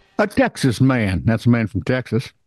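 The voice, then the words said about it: Put-on Southern accent. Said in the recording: “you can do a Southern accent kind of okay”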